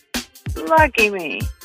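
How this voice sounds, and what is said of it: Sarcastic delivery. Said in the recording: “That was sarcasm.”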